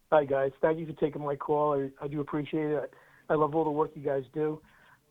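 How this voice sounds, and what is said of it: Long Island New York accent. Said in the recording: “Are you sure you're in Tennessee and not Long Island? I'm just hearing your accent. ... This one is in Long Island. ... In New York.”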